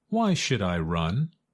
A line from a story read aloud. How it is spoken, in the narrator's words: asked Goosey Lucy